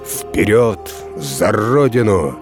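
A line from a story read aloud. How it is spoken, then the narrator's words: Menacing shout, commander. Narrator (Russian): грозно крикнул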